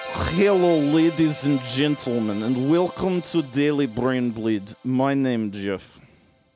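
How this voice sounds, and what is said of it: American doing a convincing Russian accent. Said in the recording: “That is the best Russian accent I've ever heard an American do. Like, that's perfect.”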